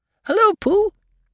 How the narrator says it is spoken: he squeaked

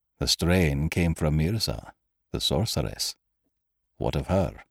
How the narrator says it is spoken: Cairn quietly

